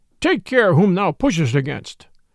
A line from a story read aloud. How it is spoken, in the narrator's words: cried a great burly friar